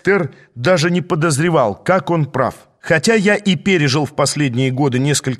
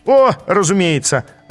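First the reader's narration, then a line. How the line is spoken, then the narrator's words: Laughing. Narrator (Russian): рассмеялся один из красных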